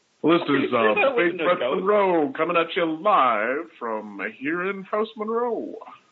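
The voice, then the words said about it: Fake radio announcer voice. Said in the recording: “introduce themselves in their best fake radio announcer voice”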